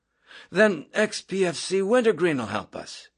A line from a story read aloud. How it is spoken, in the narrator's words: Yossarian exclaimed